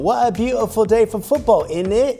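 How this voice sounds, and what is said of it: Put-on British accent. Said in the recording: “doing her British accent”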